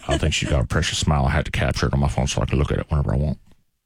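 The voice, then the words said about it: Old man voice. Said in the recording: “I'm doing a great old man voice.”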